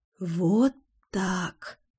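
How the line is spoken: Whispered. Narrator (Russian): шепнула я

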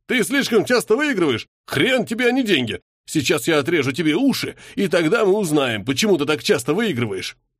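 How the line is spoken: Enraged, spluttering yell. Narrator (Russian): Лицо его было красным, изо рта брызгали слюни, и орал он что-то вроде

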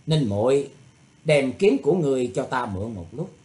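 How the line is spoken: Cold, dismissive laugh. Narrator (Vietnamese): Thủy Tuấn Hạo cười nhạt, nói

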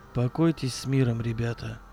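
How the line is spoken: Dull, hollow. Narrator (Russian): глухо сказал Акимов

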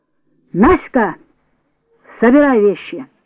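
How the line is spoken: Shouted. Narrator (Russian): закричала Татьяна Сергеевна

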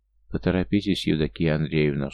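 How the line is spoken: Dry man's voice. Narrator (Russian): сухо обратил мужчина

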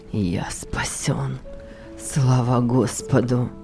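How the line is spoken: Mumbled. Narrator (Russian): вновь пробормотал молодой человек

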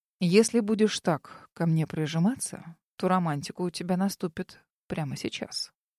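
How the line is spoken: Man mumbling. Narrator (Russian): пробормотал мужчина

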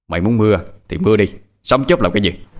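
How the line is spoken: Shout. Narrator (Vietnamese): Kiên hét

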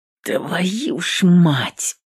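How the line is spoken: Hissed through teeth, hateful. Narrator (Russian): процедила она сквозь зубы, ненавидя весь мир

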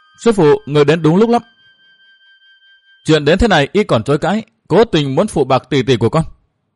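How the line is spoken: Loud voice. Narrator (Vietnamese): lớn tiếng nói

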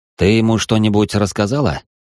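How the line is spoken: Snorting. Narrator (Russian): Я хмыкнула

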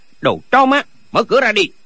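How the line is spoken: Shouting. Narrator (Vietnamese): có người quát

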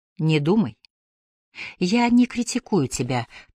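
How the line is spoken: Conciliatory tone. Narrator (Russian): примирительным тоном сказала Клэр

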